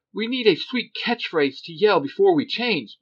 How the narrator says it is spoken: Billy blurts out

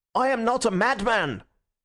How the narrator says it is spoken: he cried out

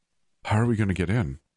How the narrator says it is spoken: I asked breathlessly

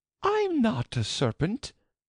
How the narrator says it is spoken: said Alice indignantly

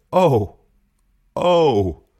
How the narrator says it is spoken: Della cried

